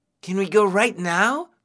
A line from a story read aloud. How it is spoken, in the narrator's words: Qin asked eagerly